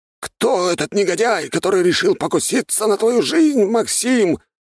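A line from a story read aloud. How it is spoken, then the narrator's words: Indignant yell. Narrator (Russian): возмущенно завопил Петр Карлович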